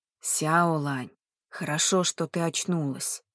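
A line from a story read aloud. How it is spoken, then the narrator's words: Old man's whisper. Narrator (Russian): прошептал дедушка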